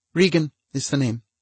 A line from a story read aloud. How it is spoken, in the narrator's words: she said sweetly